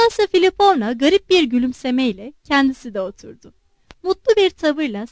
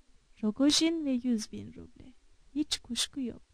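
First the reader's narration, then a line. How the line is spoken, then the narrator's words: Muttering. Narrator (Turkish): diye mırıldandı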